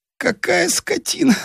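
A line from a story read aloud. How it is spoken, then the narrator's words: Moaning. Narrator (Russian): стонал он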